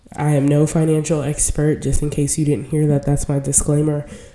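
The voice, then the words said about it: Sick-sounding voice. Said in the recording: “forgive my voice a little bit ... I am overcoming a little bit of an illness ... probably bronchitis, but I actually sound much better than I did like 2 days ago”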